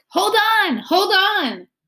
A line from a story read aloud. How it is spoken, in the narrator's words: Lena shouted